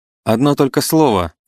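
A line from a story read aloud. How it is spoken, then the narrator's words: Shout after someone. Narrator (Russian): крикнул ей вслед Рудин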